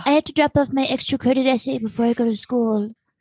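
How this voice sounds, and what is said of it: Soothing put-on character voice. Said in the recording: “when you do that accent? I'm like, ooh, or that dialect. ... It's so soothing.”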